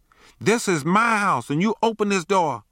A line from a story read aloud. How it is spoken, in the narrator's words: she shouted